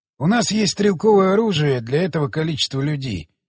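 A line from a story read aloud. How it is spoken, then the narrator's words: Plain. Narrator (Russian): сказал он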